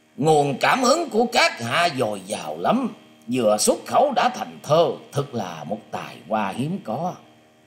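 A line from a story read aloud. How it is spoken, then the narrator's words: Loud laughing voice. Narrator (Vietnamese): có tiếng người cười to từ phía sau lưng đến rằng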